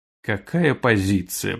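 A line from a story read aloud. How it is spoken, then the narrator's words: Mumbling. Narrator (Russian): пробормотала Тири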